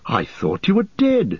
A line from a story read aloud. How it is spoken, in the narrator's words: he cried